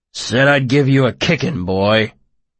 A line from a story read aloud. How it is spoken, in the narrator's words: the soldier grunted